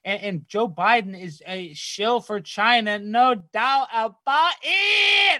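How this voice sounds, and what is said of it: Yelling. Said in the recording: “I'm yelling”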